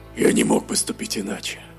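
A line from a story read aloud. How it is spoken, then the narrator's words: Hoarse croak, orc. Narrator (Russian): прохрипел орк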